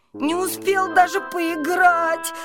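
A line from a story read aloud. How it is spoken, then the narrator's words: Whimpering. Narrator (Russian): хныкал он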